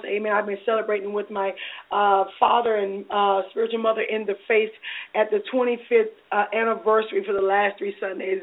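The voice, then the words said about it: Hoarse voice. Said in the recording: “my voice sounds a little bit hoarse... So my voice could be hoarse for many reasons right now.”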